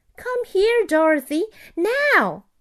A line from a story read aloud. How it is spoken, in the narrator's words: she cried